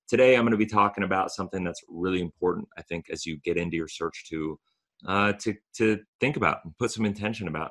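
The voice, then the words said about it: Hoarse voice from a cold. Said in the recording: “I'm dealing with a cold right now, and I'm losing my voice a little bit. You can probably hear it”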